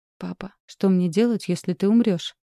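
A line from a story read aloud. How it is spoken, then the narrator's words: Calm question. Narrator (Russian): спокойно спросила Искра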